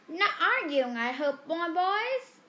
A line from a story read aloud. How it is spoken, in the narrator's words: squeaked